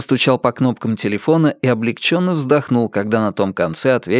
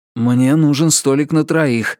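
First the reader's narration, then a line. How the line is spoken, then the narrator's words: Breathed out. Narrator (Russian): выдохнул Ричард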